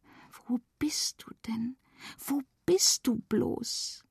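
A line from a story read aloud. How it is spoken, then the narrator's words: Whisper. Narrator (German): flüsterte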